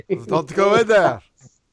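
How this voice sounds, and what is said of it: Bad put-on Turkish accent. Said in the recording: “That's the worst Turkish accent ever.”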